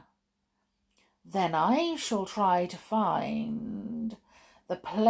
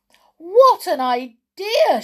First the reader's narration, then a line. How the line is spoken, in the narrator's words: she cried